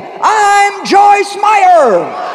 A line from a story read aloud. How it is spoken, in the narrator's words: yelled